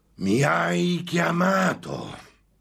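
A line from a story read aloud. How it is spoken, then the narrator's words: Demon's shout. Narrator (Italian): gridò il demonio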